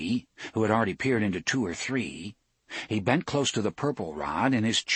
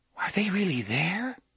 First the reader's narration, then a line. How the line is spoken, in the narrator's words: Jake asked breathlessly